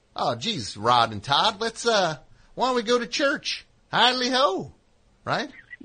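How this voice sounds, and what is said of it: Ned Flanders impression. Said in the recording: “Flanders is the neighbor ... to do that dumb voice,”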